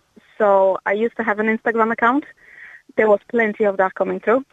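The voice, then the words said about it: Non-Irish foreign accent. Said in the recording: “I detect, obviously, from your accent, you're not originally from Ireland.”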